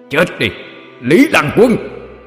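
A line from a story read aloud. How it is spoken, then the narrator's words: Loud shout. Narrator (Vietnamese): Quỷ Diện hét lớn một tiếng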